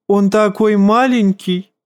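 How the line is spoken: Giggle. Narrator (Russian): хихикнул лорд Орлиного гнезда

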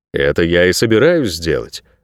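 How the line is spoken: Calm. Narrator (Russian): спокойно ответил Найрет

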